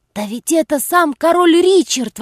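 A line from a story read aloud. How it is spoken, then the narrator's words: Exclaiming. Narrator (Russian): воскликнул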